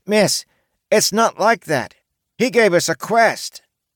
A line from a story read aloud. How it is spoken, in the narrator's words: the man-child who spoke up loudly, shouting over the noise